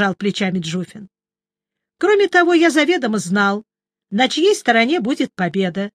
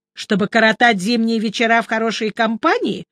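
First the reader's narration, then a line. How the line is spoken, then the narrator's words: Snide question. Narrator (Russian): ехидно спросил я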